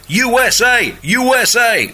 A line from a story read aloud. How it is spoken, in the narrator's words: whooped before shouting